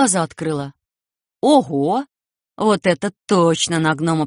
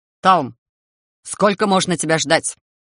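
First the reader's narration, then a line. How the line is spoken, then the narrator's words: Loud menacing bark. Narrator (Russian): Чей-то грозный голос так громко рявкнул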